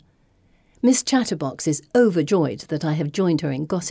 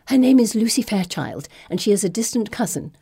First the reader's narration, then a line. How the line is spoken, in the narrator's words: relates breathlessly